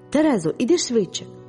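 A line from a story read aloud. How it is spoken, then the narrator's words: Tearful exclamation. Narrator (Ukrainian): вигукнула я зі слізьми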